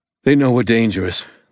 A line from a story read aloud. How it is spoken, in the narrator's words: the old man panted